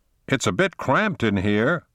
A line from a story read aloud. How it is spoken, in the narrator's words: Connor shouted above the noise of the large ventilation fan in the ceiling